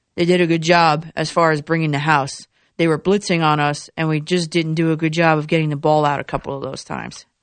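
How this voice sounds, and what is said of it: Imitates another person's voice. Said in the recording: “my Gase impression?”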